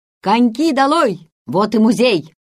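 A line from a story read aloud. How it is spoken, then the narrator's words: Shouting. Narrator (Russian): капитан Ван Хольп крикнул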